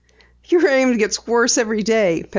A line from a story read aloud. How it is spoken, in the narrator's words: Penny chuckled